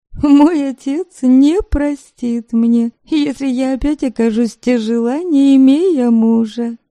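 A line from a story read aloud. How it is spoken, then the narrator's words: Laughing. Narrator (Russian): смеясь, сказала она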